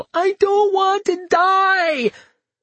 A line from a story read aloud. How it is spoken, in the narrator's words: There was a tiny voice in my head screaming